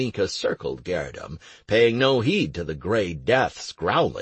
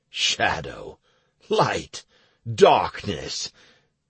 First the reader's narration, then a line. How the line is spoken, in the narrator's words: Garenika scoffed indignantly